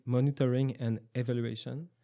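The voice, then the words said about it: French-accented English pronunciation. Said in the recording (French): “mon accent anglais”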